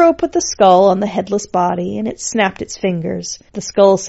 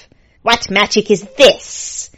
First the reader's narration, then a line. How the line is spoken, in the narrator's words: hissed Lord Skull, who was looking very put out